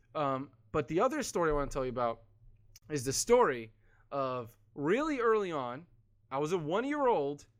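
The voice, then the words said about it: Strained, fading voice. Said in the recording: “Losing my voice, sorry.”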